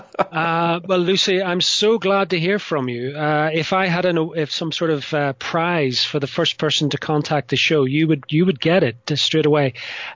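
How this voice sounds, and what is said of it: Northern Irish accent. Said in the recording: “why do you talk funny? ... I come from Ireland originally, from the north of Ireland in particular”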